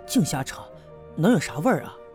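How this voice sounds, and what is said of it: Quiet, hushed speech. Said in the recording (Chinese): “小声的说了一句”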